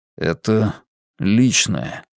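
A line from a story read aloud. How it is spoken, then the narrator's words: Mumbling. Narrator (Russian): пробормотал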